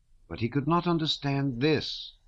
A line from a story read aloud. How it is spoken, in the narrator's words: cried Prince Andrew in a shrill voice that seemed to escape him involuntarily